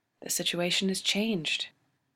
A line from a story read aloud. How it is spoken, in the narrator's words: she says, and her voice is softly diplomatic